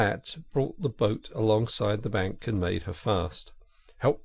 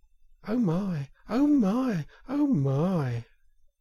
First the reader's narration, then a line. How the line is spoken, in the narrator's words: It was so very beautiful that the mole could only gasp